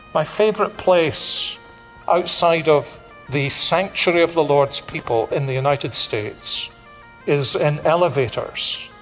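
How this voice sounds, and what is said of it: Speaks with a noticeable foreign accent. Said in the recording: “people notice I've got an accent.”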